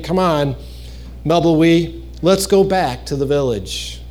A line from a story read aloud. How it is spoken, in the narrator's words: He sighed, saying